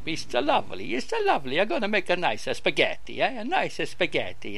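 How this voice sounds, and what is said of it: Put-on Italian accent. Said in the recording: “I've gone Italian now. What's happening? Have I gone Italian?”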